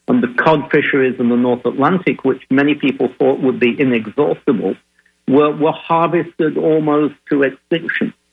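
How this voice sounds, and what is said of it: Northern English accent. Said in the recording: “with an accent like mine, I did not grow up in the United States... I grew up in the north of England”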